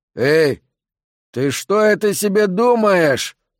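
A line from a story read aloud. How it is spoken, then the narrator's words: Menacing question, fat man. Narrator (Russian): грозно осведомился один из них, толстяк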